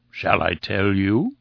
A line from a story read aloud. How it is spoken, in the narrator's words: he cooed